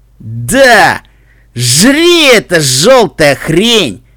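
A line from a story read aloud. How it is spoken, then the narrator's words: Laughing maniacally. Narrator (Russian): Пони с шипастой гривой хохотал как безумный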